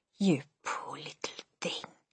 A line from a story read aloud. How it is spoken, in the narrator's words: she whispered